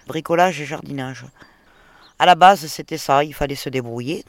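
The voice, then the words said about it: Pleasant local regional accent. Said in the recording (French): “À la voix, ça s'entendait ... C'est un, joli accent.”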